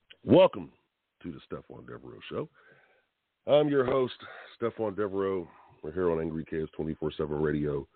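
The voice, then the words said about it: Tired, strained voice. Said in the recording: “I still got a little voice left ... with the voice that I have. It's really tiring. It's tired. My voice is tired. Did a lot of yelling and screaming last night.”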